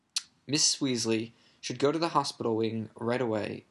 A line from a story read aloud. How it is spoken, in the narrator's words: Dumbledore interrupted in a firm voice